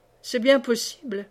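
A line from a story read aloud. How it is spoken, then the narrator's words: Laughing. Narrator (French): répondit Silver en riant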